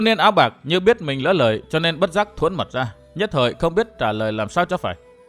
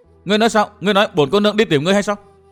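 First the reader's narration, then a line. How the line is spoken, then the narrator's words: Embarrassed angry shout. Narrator (Vietnamese): Thiếu nữ áo lam cảm thấy như bí mật trong lòng bị đối phương khám phá, bất giác đỏ bừng mặt, giận dữ quát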